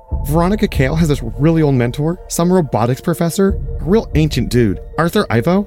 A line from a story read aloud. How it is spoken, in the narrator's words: Clark blurted out, interrupting Barbara